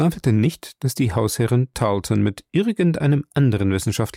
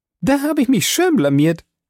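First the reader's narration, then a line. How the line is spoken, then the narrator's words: Bright laugh. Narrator (German): lachte sie hell heraus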